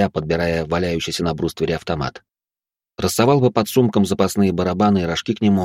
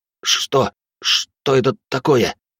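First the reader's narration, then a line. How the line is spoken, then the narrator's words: Strained forced words. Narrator (Russian): выдавил Явор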